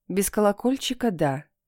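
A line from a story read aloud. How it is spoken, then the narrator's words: Calm. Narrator (Russian): сказала она спокойно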